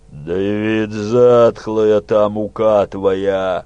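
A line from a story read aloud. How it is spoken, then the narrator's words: Growled. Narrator (Russian): прорычал Тысяцкий Анастасий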